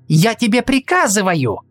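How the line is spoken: Shouting. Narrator (Russian): крикнула Сельда

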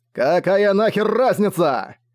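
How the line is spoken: Barked. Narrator (Russian): Рявкнул Огонь

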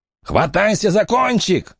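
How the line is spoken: Shouted. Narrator (Russian): крикнул человек

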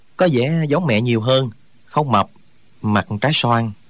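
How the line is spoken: Smiling. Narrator (Vietnamese): Trương Thúy Sơn mỉm cười nói

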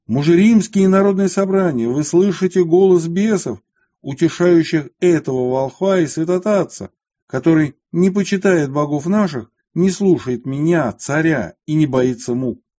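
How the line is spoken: Loud frenzied shout. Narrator (Russian): Деки же, придя в неистовство, громко закричал

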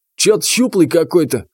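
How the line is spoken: Snorting. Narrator (Russian): хмыкнул третий

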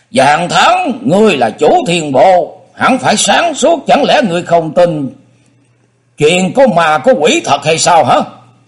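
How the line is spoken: Angry snort, cold. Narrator (Vietnamese): Dương Tử Côn tức giận hừ một tiếng, y lạnh lùng nói

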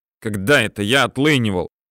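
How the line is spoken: Angry and serious. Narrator (Russian): Зло и серьезно отозвался Червоненко

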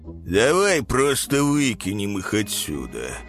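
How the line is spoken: Lazy suggestion. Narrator (Russian): лениво предложил один гриф другому

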